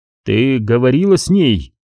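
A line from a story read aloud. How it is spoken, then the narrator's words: Plain. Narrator (Russian): спросил Риван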